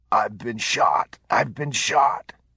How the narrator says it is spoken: blood gurgling in Patrick's mouth as he gasped

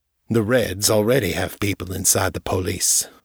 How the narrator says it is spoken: said

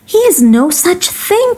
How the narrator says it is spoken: cried my wife

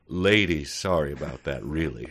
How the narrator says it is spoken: I said, still chuckling

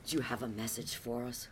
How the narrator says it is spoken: Houdini breathed

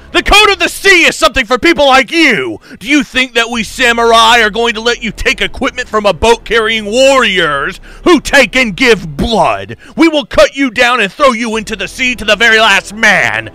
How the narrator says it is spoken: The warriors yelled

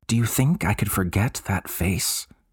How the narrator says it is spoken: She murmured

